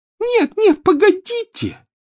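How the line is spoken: Shrill echoing shriek. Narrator (Russian): взвизгнула Плакса Миртл, и по туалету разнеслось громкое эхо

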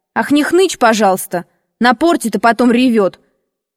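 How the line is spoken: Shouted. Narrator (Russian): крикнула я

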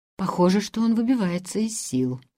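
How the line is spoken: Low undertone. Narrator (Russian): сказал Ламберт вполголоса

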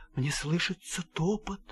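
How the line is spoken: Soft whisper. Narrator (Russian): Ивану-царевичу Марья-царевна тихонько шепчет

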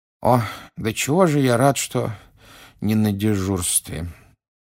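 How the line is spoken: Sleepy mumble. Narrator (Russian): сонно пробормотал мистер Уизли

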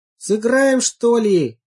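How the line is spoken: Group shouting. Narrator (Russian): закричали они

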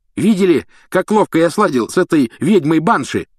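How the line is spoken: Shouting. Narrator (Russian): кричал Симус

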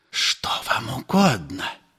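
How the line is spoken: Whisper. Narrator (Russian): прошептал отец Федор

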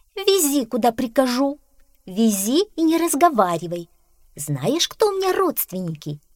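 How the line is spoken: Exclamation. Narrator (Russian): воскликнула кошка

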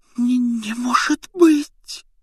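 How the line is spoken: Breathless near-silent exhale. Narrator (Russian): почти беззвучно выдохнула она

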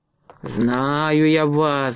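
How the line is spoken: Angry muttering. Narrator (Russian): бормотал он сердито

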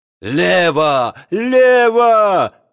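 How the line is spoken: Yelling. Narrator (Russian): завопил Нечепуренко

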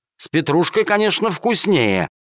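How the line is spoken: Spiteful, smirking. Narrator (Russian): ответил начальник полиции, зло ухмыляясь

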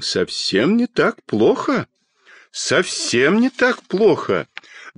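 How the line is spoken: Pleased voice. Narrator (Russian): довольным голосом сказал детский доктор

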